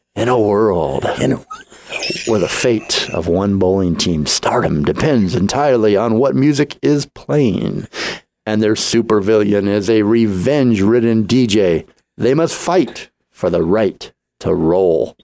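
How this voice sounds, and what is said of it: Dramatic movie trailer narrator voice. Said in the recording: “in my best movie voice”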